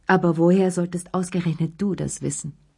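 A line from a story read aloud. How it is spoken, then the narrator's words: Firm voice. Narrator (German): sagte sie mit fester Stimme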